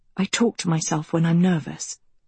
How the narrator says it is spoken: Agatha whispered

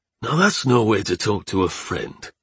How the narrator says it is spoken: grumbled Chad

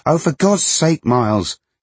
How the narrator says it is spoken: she shouted, and was then slightly taken aback by how loud her voice was

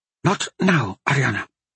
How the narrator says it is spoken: Carlana whispered back

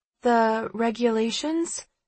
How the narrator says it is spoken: Sterling asks hesitantly

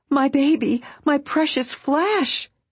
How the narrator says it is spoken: cried Harry Spiders

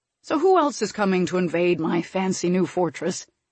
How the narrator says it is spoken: Tristan chuckled

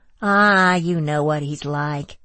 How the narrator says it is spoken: drawled Andrea

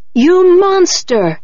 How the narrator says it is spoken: he screamed

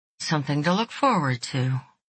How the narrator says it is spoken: she murmured

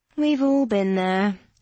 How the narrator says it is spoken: Lauren sighed

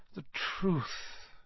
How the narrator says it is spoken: Dumbledore sighed

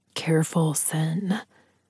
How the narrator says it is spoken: he whispered

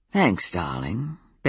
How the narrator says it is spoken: Ben told her in a suggestive voice

